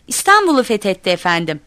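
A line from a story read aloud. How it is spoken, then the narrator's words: Shouting. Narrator (Turkish): diye bağırdım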